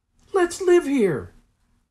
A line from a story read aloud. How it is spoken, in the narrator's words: cried Jessie